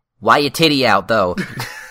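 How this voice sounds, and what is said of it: Aziz Ansari impression. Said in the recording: “Did your Aziz Ansari voice.”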